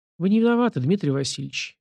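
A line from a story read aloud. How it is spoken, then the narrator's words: Gentle. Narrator (Russian): мягко ответил Нечаева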